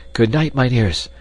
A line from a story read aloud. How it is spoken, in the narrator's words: panted Hans, radiant with sudden joy